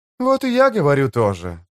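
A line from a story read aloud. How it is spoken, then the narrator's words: Cheerful. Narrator (Russian): сказала Фелисин-младшая, весело сверкая глазами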